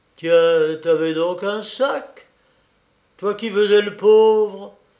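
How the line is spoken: Exclaiming. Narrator (French): s'écria le meunier

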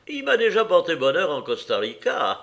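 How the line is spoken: Cheerful. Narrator (French): ajouta-t-il gaiement

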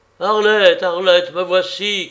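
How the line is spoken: Shouted. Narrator (French): cria Fagereau

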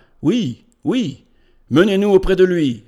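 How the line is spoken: Impatient exclamation. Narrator (French): s'écria le grec avec impatience

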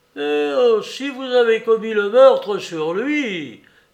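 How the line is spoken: Horrified exclamation. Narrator (French): s'écria en signe d'horreur

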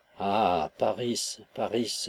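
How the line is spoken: Wistful sigh. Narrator (French): soupirait-elle

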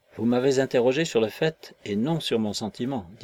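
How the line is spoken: Plain. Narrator (French): dit Will

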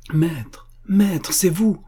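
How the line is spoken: Joyful cry. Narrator (French): s'écria-t-elle joyeuse

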